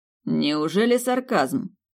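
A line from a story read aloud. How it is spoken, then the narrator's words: Mocking. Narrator (Russian): насмешливо уточнил Венценосный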